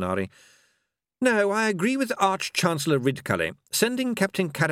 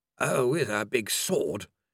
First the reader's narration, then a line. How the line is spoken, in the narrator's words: grumbled Mr